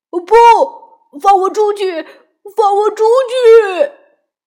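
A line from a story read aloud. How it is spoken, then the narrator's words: Terrified loud shouting. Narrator (Chinese): 阿拉丁害怕极了，大声呼喊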